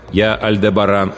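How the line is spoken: Loud. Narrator (Russian): громко сказал Альдебаран

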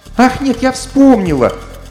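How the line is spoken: Exclaimed. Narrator (Russian): воскликнула Алиса

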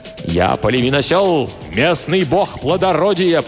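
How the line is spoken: Roaring. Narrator (Russian): проревел он

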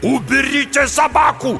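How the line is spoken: Frantic scream. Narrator (Russian): закричал неистово Мичель

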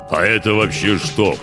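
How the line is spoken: Grumbling. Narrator (Russian): пробурчал наконец Гох

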